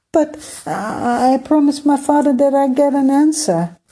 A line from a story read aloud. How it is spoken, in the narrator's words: cried